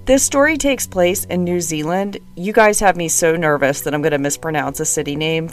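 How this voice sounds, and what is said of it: Voice sounds a little off. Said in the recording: “I sound a little funny, I'm getting over a cold”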